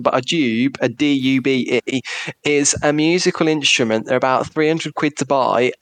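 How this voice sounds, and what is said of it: Birmingham English accent. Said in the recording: “my Brummie accent”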